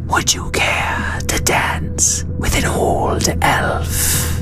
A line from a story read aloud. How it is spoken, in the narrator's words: said the Mist Elf teacher in her wispy voice